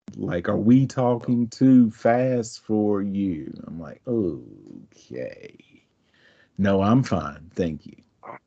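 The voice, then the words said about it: Mild Southern US accent. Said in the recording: “when I lived in North Carolina, I didn't think I had a thick accent at all ... your accent is not very thick. Like, I can tell ... a Southern accent”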